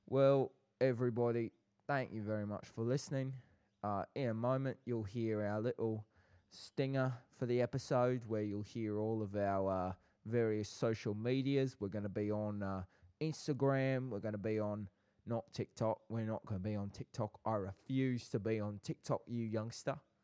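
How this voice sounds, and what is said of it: Put-on South London accent. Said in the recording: “So I have to do the accent ... your South London accent ... My South London accent.”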